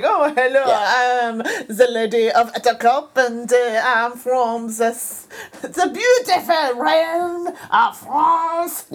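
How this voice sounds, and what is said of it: Put-on French accent. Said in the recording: “it would be like a French accent”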